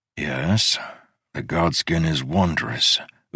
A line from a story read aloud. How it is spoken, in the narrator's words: Udo said in a flat tone